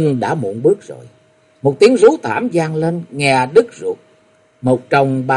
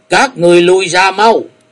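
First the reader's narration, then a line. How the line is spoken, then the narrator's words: Monk's loud shout. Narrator (Vietnamese): Thiếu Lâm Điền Tăng hét lớn một tiếng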